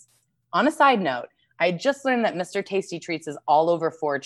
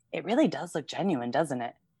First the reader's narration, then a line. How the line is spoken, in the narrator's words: I whispered